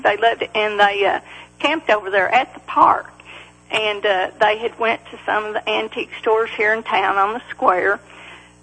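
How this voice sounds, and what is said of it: Country accent. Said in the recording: “we love your accent ... I'm just country.”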